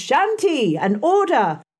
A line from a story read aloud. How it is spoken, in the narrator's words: A great tumult succeeded for some minutes, during which Miss Miller repeatedly exclaimed